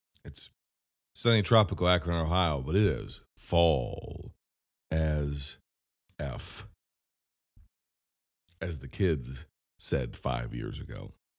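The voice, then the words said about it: Sick, strained voice. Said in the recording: “Pardon my voice, I'm sick.”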